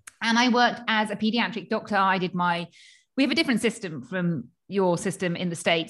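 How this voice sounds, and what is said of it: British English accent. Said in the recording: “I trained in the UK, as you can probably tell from my accent”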